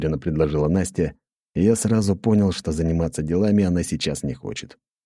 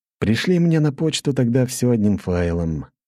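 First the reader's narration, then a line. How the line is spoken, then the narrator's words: Heavy sigh. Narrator (Russian): тяжело вздохнул я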